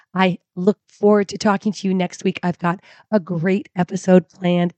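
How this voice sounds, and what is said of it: Hoarse, failing voice. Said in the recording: “as you can hear, my voice has really decided to leave the building for me this week”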